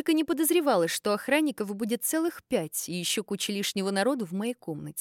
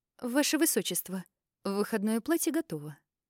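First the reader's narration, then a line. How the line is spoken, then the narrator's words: Quiet. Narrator (Russian): тихо сказала Маргарет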